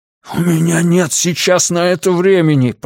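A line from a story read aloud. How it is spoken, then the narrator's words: Hissing. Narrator (Russian): прошипел Миртон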